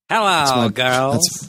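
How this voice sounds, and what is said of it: Imitates a sitcom character's voice. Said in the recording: “my best Squiggy impression. Lenny and Squiggy impression.”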